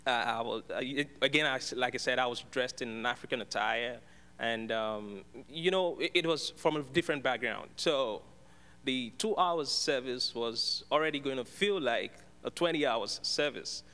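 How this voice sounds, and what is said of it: Thick Nigerian English accent. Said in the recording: “with an obvious thick accent, of course, I'm sure that my accent is, you can also feel the accent ... my heavenly accent”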